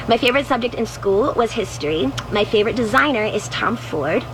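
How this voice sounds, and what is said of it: Childlike baby voice. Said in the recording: “it's that baby voice. ... It's like listening to a 14-year-old.”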